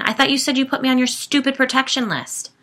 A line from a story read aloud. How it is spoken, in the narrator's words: I snapped at Sigourney